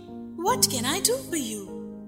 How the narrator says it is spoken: she inquired softly, for she was moved by the sad voice in which the man spoke

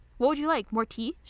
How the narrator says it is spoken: asks cheerfully

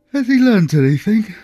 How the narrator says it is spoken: asked sleepily

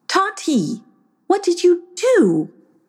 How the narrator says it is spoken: exclaimed her mother

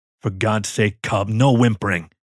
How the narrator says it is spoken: Hatchet growled

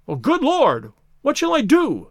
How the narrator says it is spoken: cried the stranger, in an ecstasy of despair

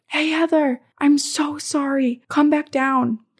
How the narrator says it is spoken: I hear my dad yell from the bottom of the stairs

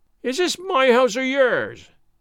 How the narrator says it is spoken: said he in his keen voice

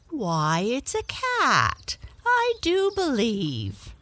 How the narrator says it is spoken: exclaimed the lady

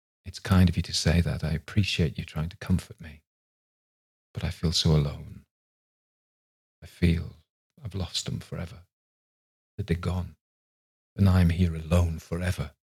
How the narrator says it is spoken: David says softly

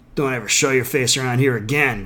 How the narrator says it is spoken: growled the bearded man

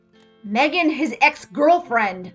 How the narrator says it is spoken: Megan spat, annoyed now

